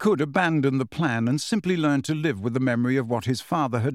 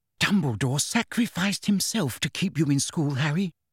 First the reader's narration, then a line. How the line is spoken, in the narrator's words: whispered Hermione